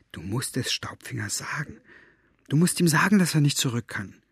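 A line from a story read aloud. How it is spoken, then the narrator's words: Whispering. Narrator (German): wisperte Maggie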